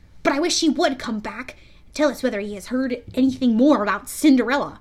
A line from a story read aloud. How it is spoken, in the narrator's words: for he added hastily